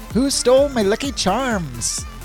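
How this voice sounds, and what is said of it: Weak attempt at Irish accent. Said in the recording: “I can't do an Irish accent.”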